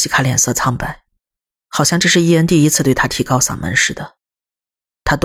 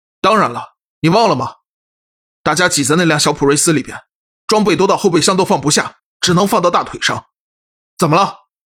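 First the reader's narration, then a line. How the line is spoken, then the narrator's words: Stern, sharp. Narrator (Chinese): 他厉声说道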